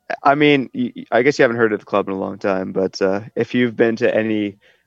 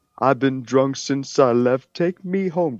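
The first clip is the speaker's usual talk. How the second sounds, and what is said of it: Imitates another person's singing voice. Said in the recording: “That sounds like a Queen song, dude. ... that legit sounds like you're imitating Freddie Mercury.”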